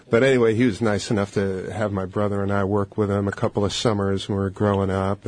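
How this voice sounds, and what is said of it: Brooklyn accent. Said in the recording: “Are you Brooklyn? ... See, I could tell. We're just a little different accent.”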